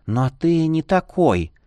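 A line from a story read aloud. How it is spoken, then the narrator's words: Whisper after long pause. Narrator (Russian): прошептала после внушительной паузы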